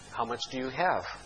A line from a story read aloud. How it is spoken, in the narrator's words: the man said